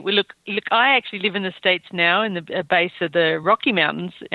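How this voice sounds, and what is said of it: Australian accent. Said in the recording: “you can probably tell from my accent that I'm Australian”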